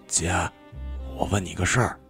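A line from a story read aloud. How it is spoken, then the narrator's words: Whispering. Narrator (Chinese): 小霍在他耳边低声的说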